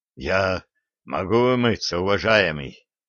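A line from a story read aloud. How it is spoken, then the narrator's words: Hoarse old sorcerer. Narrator (Russian): прохрипел ведун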